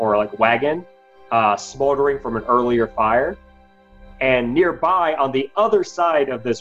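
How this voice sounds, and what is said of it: Usual voice. Nothing is said of it.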